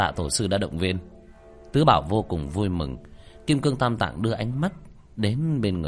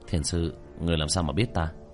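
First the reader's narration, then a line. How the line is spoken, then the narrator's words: Muttering. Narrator (Vietnamese): Kim Cương Tam Tạng lẩm bẩm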